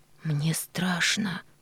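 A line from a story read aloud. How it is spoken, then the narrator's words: Whisper. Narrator (Russian): прошептала она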